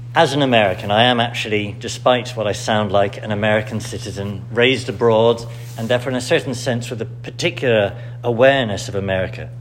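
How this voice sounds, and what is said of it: British accent. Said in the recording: “you hear me speak to you with a British accent”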